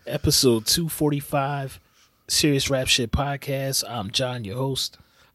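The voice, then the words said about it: Sick, raw-throated voice. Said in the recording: “excuse my voice, y'all. I'm a little sick, as you can probably tell. I sound like somebody ripped my throat out”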